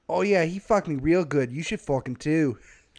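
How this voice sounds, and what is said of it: Attempted Pittsburgh accent, sounding Irish-Scottish. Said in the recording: “I can't do the accent ... that turned kind of Irish-Scottish ... I thought that was a little Australian there ... I can't do the trashy Pittsburgh accent”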